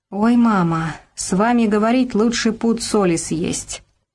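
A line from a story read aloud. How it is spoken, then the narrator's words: Through gritted teeth. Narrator (Russian): Люба процедила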